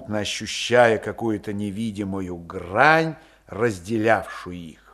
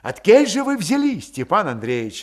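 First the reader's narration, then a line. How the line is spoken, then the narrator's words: Joyful eager questioning. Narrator (Russian): радостно допытывался Мишка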